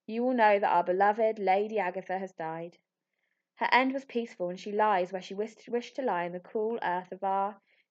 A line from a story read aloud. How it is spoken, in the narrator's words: said solemnly